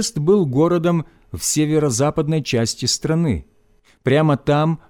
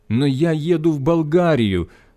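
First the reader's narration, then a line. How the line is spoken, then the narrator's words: Pleading. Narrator (Russian): взмолился я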